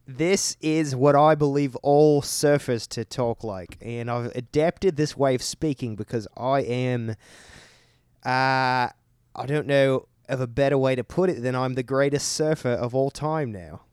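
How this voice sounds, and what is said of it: Put-on Australian accent. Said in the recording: “some would believe to be Australian accent... These accents are gonna be difficult to maintain”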